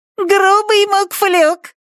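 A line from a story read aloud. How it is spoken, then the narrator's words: Squeaky imitated falsetto. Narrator (Russian): пропищал Брэм фальцетом Дрэка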